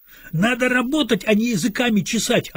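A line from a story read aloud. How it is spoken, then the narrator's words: Yelling. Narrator (Russian): орал майор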